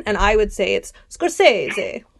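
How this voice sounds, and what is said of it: Exaggerated fake Italian accent. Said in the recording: “I do a really great racist Italian accent ... Oh, that was awful.”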